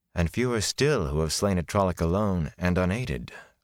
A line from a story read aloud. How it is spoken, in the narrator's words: Moraine said wearily